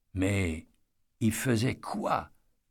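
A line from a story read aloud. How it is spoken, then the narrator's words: Murmured. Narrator (French): murmura Eddy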